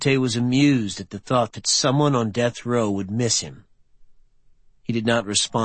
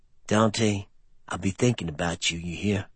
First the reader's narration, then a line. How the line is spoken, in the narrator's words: Mouse lowered his voice, and said